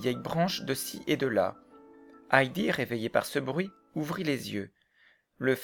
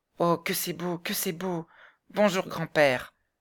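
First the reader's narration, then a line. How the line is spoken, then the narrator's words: Excited exclamation. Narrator (French): s'écria Heidi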